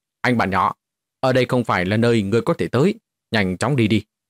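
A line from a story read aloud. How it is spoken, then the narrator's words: Cold shout in English. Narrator (Vietnamese): dùng tiếng Anh quát lạnh nói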